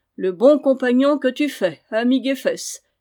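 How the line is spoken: Exclaimed. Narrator (French): s'écria-t-il

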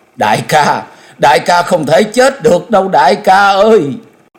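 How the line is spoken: Anguished cry. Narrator (Vietnamese): Nàng cất tiếng thống thiết kêu lên

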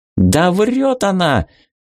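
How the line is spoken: Flushed, agitated shout. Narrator (Russian): выкрикнул раскрасневшийся при упоминании о его отце

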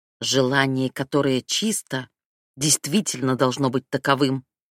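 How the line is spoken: Growled. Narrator (Russian): прорычал он

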